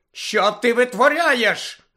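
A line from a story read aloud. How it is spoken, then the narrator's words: Shouted. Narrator (Ukrainian): закричала мадам Гуч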